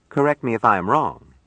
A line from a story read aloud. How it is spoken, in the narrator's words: it said